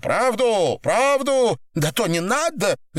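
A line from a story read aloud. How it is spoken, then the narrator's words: Shouting. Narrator (Russian): закричала Наташа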